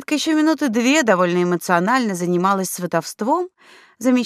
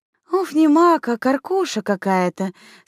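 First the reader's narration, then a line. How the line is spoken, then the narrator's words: Girl's relieved exhale. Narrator (Russian): с облегчением выдохнула девушка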